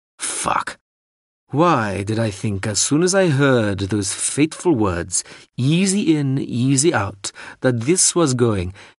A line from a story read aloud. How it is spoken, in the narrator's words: began Jandralajeli in a bored, knowing drawl